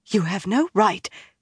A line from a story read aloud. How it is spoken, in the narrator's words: she began in a breathless voice